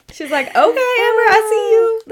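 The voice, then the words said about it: High-pitched imitation of a friend. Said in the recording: “Why are we giving Dawn such a high voice? ... she doesn't actually have like a high voice”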